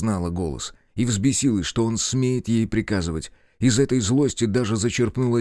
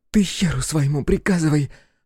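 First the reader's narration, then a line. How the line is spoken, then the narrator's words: Strained, forced out. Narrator (Russian): сумела выдавить Ерсена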